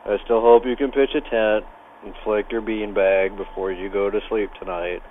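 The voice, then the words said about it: Voice sounds a little off. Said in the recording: “My voice is a little off this week.”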